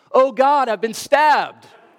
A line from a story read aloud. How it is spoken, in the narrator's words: cried out in a loud voice